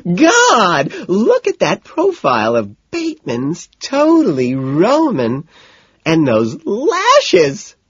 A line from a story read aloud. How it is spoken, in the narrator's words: she shrieks